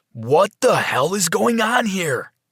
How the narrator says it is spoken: shouted

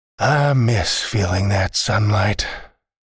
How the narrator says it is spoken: Lodi said and sighed

